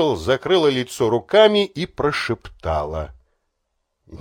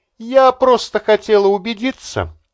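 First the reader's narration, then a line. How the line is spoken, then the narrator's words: Giggling. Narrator (Russian): хихикнула Барбара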